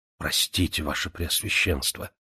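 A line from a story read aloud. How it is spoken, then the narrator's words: Apologetic mumble. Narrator (Russian): пробормотал священник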